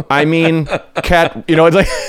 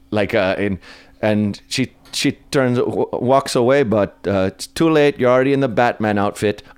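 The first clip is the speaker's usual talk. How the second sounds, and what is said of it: Imitates another person's accent. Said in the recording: “I'm going to butcher the accent”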